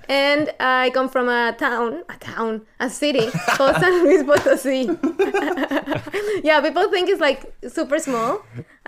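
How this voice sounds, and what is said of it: Mexican accent. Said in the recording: “I'm from Mexico, as you can hear by my accent.”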